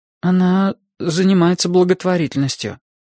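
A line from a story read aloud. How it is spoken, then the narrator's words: Hesitant after confused pause. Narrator (Russian): ответил я, растерянно помолчав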